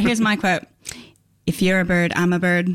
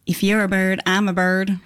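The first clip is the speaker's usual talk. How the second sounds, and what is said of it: Put-on Southern accent. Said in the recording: “I should probably do it in my southern accent a little bit better.”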